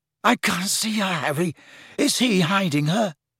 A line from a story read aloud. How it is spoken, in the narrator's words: Ron chose this moment to moan